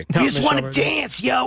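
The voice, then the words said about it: Imitates another person's voice. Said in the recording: “my Michelle Rodriguez impression”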